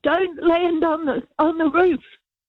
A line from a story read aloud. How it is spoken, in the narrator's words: my neighbour, new neighbour next door, yelled out